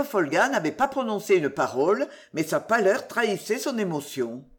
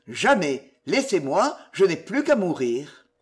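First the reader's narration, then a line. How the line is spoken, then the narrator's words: Exclaimed. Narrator (French): s'écria-t-il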